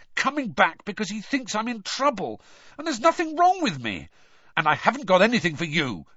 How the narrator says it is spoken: Harry snapped at Hedwig

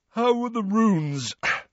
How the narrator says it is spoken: said Ron, yawning

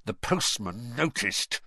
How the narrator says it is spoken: he said through gritted teeth

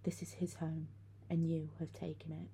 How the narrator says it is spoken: staring at us with wild blue eyes, she whispered

